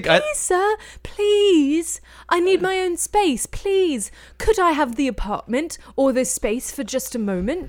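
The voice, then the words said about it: Put-on British accent, pleading. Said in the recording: “Should I not be doing a British accent? ... act out like a little orphan British kid”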